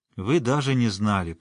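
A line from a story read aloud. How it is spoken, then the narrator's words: Calm, gently reproachful. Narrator (Russian): она уже спокойно, но с мягким укором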